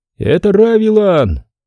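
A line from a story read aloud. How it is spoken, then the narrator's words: Sentry shouting from above. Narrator (Russian): крикнул, свесившись вниз, краснокожий часовой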